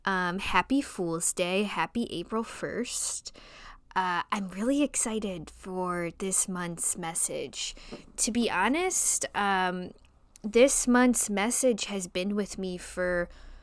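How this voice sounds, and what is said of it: Strong Midwestern American accent. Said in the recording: “I have a weird accent, for sure. It's because both my parents are, have that Midwestern accent. ... I have, like, a Midwestern accent on steroids ... a client say that they thought I was a Southern Belle”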